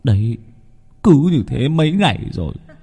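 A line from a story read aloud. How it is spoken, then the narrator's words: Heavy weary sigh. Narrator (Vietnamese): chú thở dài sườn sượt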